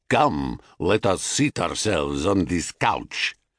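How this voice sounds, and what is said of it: Thick Thracian accent. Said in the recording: “he said in a thick Thracian accent.”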